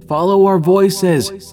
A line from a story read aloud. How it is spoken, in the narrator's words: Tom shouted